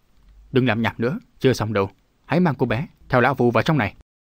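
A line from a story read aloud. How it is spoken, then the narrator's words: Harsh shout. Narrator (Vietnamese): Vạn độc thần quân quát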